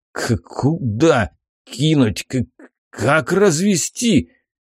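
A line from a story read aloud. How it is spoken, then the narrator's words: Frightened mutter. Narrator (Russian): испуганно пробормотал Зухар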